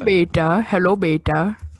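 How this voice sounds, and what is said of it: Put-on Punjabi accent. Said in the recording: “What accent is that? ... Oh, Punjabi. ... Sound like a 16-year-old white kid trying to sound like an African.”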